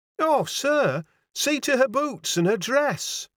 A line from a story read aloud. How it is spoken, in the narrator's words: cried the landlady wildly